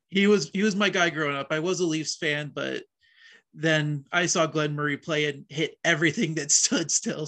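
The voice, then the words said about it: Canadian accent. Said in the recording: “you have a Canadian accent”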